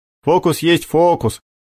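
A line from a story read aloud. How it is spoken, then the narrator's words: Amused snort. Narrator (Russian): хмыкнул Макар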